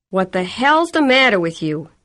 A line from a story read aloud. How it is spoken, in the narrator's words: him yelling at her